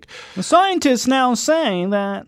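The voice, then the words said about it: Local newscaster voice. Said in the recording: “good local newscaster impression.”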